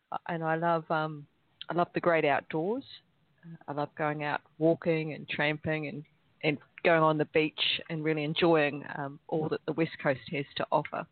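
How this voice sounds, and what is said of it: A noticeable accent. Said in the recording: “I'm just enjoying the accent.”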